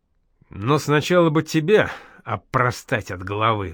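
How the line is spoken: Sighing. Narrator (Russian): вздохнул Бусыга

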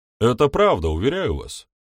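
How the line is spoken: Sincere exclamation. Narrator (Russian): воскликнул Кенворти, искренне веря в свои слова

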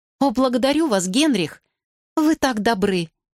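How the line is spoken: Exclaimed. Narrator (Russian): воскликнула Кэтрин

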